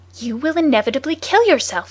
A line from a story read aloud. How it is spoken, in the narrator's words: he cried